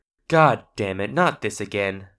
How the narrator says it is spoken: sighed Vinny

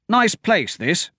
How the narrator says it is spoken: Hadrian said, and grunted

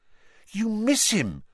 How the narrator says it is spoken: Hermione said impatiently

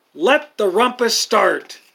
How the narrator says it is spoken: cried Max

